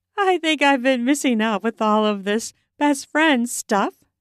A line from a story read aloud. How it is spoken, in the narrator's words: said, laughing